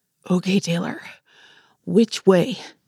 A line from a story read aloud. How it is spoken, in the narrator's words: Cooper asked between breaths